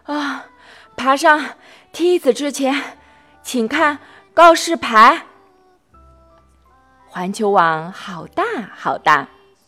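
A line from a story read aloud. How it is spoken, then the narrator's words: Exhausted, panting. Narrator (Chinese): 汪汪汪太累了，他气喘吁吁地告诉他们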